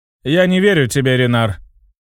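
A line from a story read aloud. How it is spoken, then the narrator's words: Scoffing snort. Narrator (Russian): хмыкнул он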